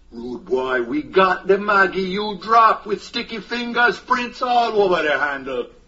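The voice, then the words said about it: Jamaican patois accent. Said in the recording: “Where does a blonde-haired, blue-eyed detective come up with that accent? ... grew up in Jamaica, so he comes by it honestly.”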